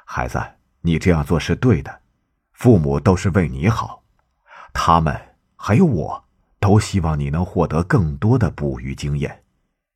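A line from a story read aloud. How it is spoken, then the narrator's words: Smiling. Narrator (Chinese): 圣地亚哥微笑着说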